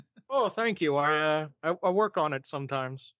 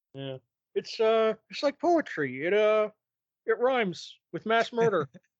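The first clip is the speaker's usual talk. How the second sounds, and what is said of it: Imitates another person's voice. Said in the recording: “that was actually a really good impression.”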